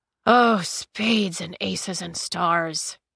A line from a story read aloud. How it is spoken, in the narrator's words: he groaned